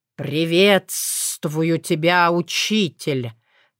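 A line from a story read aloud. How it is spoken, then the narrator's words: Solemn declaration. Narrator (Russian): торжественно заявила это недоразумение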